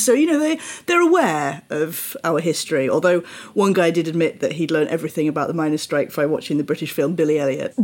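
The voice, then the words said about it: British English accent. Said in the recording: “how a British accent is regarded in France ... the number of people who've told me that my accent is trop mignon, which is too cute”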